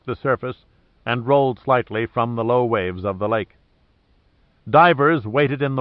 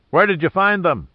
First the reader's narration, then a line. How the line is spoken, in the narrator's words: shouted up at him